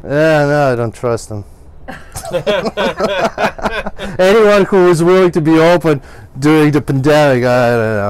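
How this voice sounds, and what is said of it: Ukrainian-Russian accent. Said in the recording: “I hear accent ... Ukraine ... The Russian's coming out”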